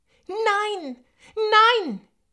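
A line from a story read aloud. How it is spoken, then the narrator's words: Shouting. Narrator (German): schrie Nandi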